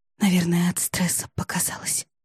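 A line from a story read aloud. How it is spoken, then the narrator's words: Whisper. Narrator (Russian): прошептала она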